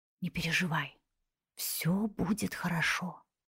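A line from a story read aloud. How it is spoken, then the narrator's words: Soothing whisper. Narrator (Russian): раздался успокаивающий шепот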